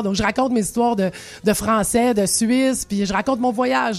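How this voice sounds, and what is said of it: Quebec French accent. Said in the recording (French): “forcément, je suis la québécoise. On passe pas à côté de mon mon accent ... j'ai pas perdu l'accent”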